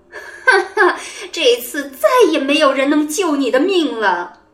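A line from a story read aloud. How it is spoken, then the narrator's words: Gleeful sinister laugh. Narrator (Chinese): 王后快活的狞笑着说道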